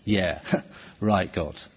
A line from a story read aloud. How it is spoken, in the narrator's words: she laughs and says